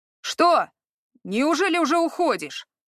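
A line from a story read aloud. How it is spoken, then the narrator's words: Howled by the host. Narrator (Russian): Буквально взвыл хозяин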